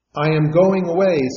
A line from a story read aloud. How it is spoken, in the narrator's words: said the master